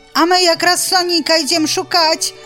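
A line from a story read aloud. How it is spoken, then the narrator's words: Shouting in unison. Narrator (Belarusian): закрычалі разам кураняты, сарока і заяц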